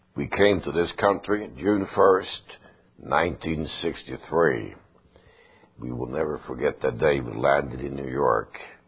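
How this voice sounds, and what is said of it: Foreign accent. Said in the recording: “it's hard to get rid of an accent ... but at least people can understand”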